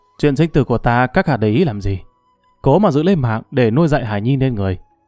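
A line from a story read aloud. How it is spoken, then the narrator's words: Sarcastic. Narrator (Vietnamese): Vô Hối mỉa mai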